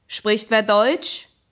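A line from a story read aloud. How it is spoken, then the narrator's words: Calling out. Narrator (German): Balke winkte und rief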